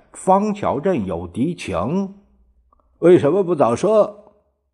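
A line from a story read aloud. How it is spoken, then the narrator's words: Almost shouting. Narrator (Chinese): 蒋介石几乎叫起来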